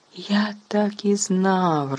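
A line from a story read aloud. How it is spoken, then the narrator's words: Joyful exclamation. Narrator (Ukrainian): радісно вигукнув Стен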